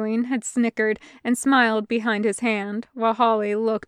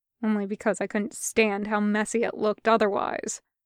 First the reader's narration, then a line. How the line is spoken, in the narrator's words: muttered